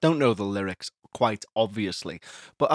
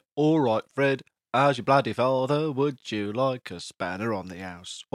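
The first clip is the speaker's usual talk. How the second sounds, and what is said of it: Put-on Cockney accent. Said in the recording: “I'm going to do a Cockney accent ... I feel like being Cockney today ... I don't know how you be a Cockney”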